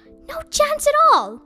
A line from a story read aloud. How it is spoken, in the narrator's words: snapped Mrs